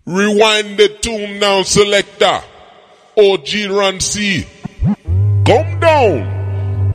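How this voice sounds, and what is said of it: Put-on Jamaican accent. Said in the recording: “I got to speak the Jamaican accent, man. ... I do it very well. I Jamaican it very well.”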